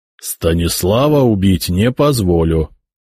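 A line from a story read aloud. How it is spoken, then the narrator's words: Even-voiced reply. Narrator (Russian): ровным голосом ответил Яромир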